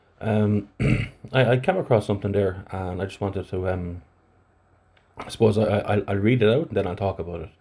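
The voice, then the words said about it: Flat Irish Athlone accent. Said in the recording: “my flat Athlone accent”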